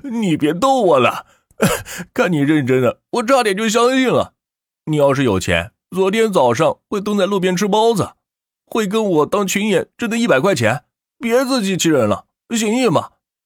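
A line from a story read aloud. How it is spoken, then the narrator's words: Laughing. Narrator (Chinese): 马宁忍不住捂着肚子笑出声来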